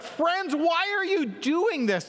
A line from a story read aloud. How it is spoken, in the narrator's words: they verbally shout